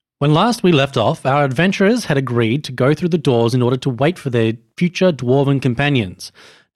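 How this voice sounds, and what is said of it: Dramatic presenter narrator voice. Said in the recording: “He's getting ready to do his presenter voice.”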